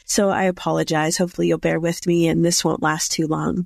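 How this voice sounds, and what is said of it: Hoarse, froggy voice. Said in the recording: “my voice isn't up to par. I'm not 100%. I'm actually recovering from COVID... my voice still sounds kind of froggish”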